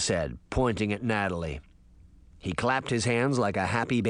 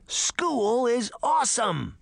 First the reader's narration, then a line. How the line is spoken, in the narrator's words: he shouted